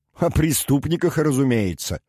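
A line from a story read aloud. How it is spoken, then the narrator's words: Short laugh. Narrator (Russian): коротко рассмеялся Дердаген Тур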